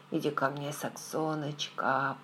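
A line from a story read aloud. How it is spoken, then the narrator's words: Mumbling. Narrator (Russian): пробормотал он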